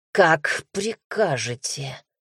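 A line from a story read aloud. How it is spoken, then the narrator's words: Through gritted teeth. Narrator (Russian): сквозь зубы процедил Вальтер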